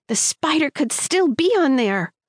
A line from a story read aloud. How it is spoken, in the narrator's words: I screamed at the wall